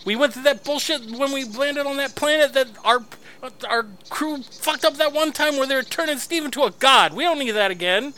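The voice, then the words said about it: Yelling angrily. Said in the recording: “I'm yelling ... I heard you were yelling a second ago.”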